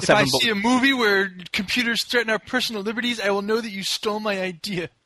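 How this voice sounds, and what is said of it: Nerdy comic book guy character voice. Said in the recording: “That was a really good impression. ... I'm good at doing the comic book guy.”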